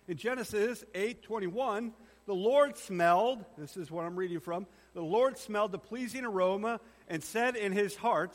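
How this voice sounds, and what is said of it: Strained, hoarse voice. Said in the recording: “I think I'm losing my voice.”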